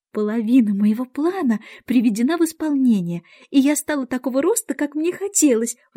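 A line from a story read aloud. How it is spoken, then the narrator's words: Exclaimed. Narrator (Russian): воскликнула она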